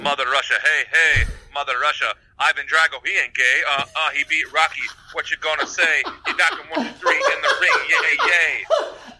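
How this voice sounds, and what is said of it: Attempted Russian accent, beatbox rap. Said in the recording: “Give it a Russian theme. Like, kind of make it Russian... I don't even know how to do a Russian accent”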